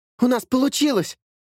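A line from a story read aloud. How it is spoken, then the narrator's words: Exclamation. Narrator (Russian): воскликнул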